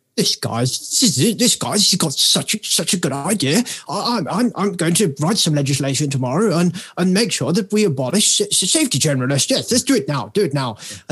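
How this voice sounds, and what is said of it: Imitates another person's voice. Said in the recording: “that impression would have only been better with the hair ... An English person, that was a terrible accent. To an American, that was so good.”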